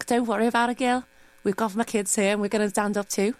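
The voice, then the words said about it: Good Liverpool accent. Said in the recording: “that was a very good Liverpool accent.”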